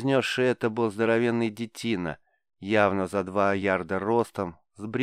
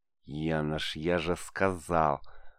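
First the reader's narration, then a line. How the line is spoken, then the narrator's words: Through gritted teeth. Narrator (Russian): процедил сквозь зубы плотник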